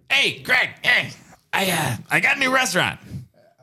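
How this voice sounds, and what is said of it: Impression of a friend. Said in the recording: “You guys both have great Adam impressions ... he's gonna do an impression.”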